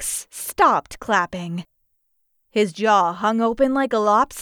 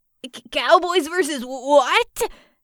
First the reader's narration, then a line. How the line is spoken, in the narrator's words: sputtered